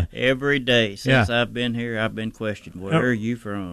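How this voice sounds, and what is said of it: Southern US accent. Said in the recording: “judging by the accent ... South Georgia. Way down deep south.”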